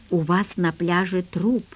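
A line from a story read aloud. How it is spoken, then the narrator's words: Quiet. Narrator (Russian): тихо сказала я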